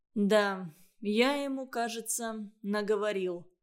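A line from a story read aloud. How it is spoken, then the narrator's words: Sighing, sullen confession. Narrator (Russian): вздохнув, сознался Иван Иванович с насупленным видом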